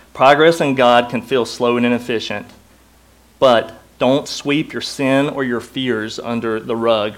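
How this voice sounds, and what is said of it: Southern American accent. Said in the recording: “I have a southern accent. The faster I talk, the less you understand.”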